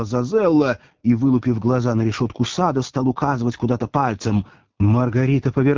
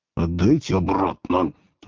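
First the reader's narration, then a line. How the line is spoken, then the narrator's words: Angry hiss. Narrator (Russian): в злобе зашипела Зазелла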